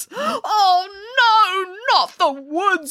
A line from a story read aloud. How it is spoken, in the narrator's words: wailed Boris